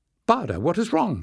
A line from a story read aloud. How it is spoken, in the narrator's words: exclaimed